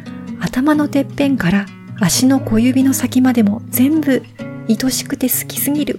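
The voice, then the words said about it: Reads aloud in a quiet voice. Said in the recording (Japanese): “ちょっと小声で読んできます”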